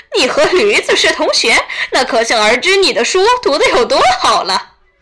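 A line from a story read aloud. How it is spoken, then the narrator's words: Hearty laughter. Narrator (Chinese): 江椒哈哈大笑着说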